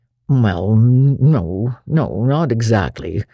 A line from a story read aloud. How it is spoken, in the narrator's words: said Matthew uneasily